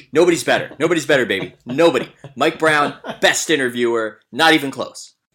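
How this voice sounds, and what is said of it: Imitates another person's voice. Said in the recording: “my Warren Legere imitation.”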